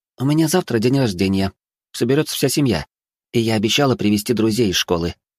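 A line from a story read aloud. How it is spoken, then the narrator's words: Businesslike tone. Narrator (Russian): деловым тоном произнесла Катя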